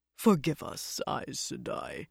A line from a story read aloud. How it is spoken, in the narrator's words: he murmured